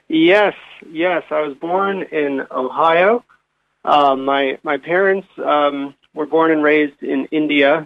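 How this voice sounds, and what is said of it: American accent. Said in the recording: “there's an accent there. You were born in Ohio.”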